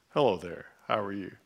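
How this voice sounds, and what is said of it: Deep voice. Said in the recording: “I'm assuming God has a deep voice.”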